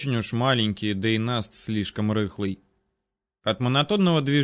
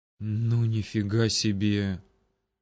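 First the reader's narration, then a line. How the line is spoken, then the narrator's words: Breathed out together. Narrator (Russian): Одновременно выдохнули Макс и Николай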